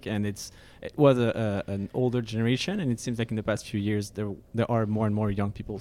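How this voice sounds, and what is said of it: French accent. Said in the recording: “I'm French from France, so I have a French accent.”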